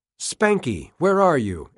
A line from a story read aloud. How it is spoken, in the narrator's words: Edwards cried